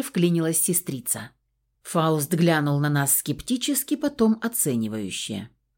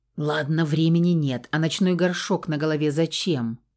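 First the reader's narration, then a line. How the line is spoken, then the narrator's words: Sudden question with a smirk. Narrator (Russian): Уже на ходу неожиданно спросил мужчина и хмыкнул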